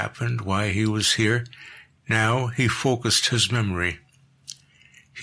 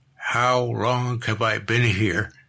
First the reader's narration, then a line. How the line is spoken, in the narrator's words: The words croaked from his lips